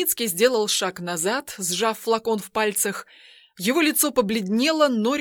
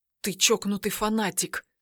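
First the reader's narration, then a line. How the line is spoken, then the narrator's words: Whisper. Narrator (Russian): прошептал Тайницкий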